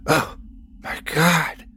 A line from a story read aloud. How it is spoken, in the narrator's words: whispered